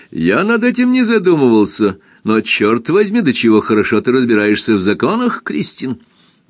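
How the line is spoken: Laughing. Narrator (Russian): Эрленд опять рассмеялся и сказал

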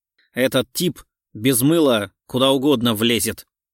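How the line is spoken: Angry. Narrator (Russian): зло сказал он

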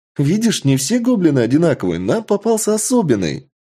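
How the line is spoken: Joyful. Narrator (Russian): Радостно произносит леди Винтер

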